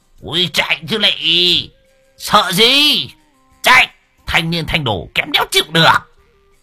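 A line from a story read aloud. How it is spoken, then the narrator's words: Excited howling. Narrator (Vietnamese): Lão hưng phấn lão rú lên như đời ơi sổ lòng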